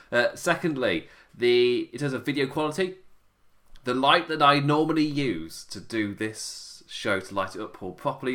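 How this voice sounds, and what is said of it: Tired, sleepy voice. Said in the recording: “As you can tell by my voice, 5 a.m, gone, I'm ready for bed.”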